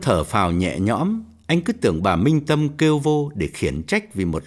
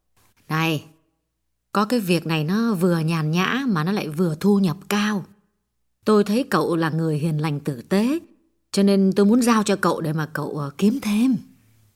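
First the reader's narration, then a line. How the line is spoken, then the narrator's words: Gentle speech. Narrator (Vietnamese): Bà dịu dàng nói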